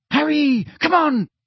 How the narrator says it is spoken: shrieked Hermione

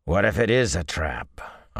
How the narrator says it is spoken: Arganda growled, almost a wolf's guttural growl

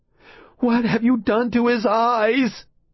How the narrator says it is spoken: She screamed at them

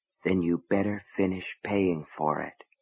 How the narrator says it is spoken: a voice deep in his mind whispered

